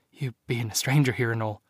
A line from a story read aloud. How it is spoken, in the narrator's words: Maeve whimpered